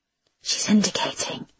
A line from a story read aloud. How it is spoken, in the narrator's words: whispered Rajavi